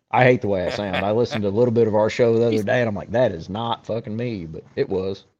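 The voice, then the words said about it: Rural American country accent. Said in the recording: “Country as fuck, if you can't tell by the accent. Just long-haired country boy.”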